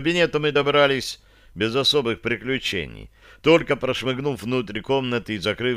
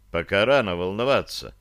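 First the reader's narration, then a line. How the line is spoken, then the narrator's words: Quiet reply. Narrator (Russian): так же тихо отозвался я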